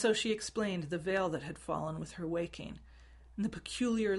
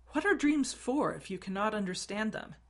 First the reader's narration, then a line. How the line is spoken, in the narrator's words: Arwen exclaimed, frustrated